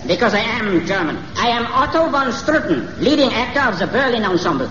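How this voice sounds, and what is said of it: German accent. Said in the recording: “Why are you talking with a German accent?”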